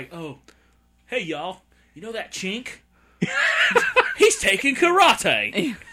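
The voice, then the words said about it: Put-on Southern accent drifting Australian. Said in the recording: “Did you just go from Southern into Australian accent there?”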